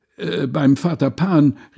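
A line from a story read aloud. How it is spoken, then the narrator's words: Crowd calling out. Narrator (German): rief Groß und Klein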